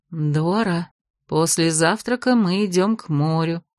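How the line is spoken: Whisper. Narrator (Russian): шепнула княгиня Бетриса

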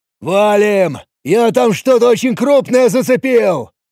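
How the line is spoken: Shouted. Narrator (Russian): крикнул

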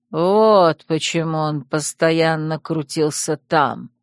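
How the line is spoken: Creaky voice. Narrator (Russian): проскрипел Душан

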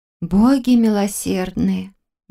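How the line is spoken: Breathed out. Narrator (Russian): выдохнула

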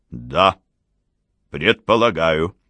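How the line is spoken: Firm voice. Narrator (Russian): сказал граф твердым голосом

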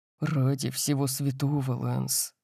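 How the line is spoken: Mutter. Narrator (Russian): пробормотал я

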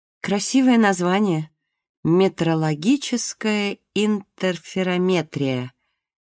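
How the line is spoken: Slow singsong. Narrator (Russian): медленно нараспев сказала Марго

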